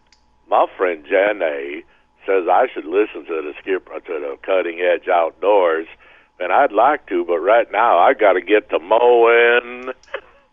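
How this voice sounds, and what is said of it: Forrest Gump impression. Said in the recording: “you do a Forrest Gump impression ... Actually, not too bad.”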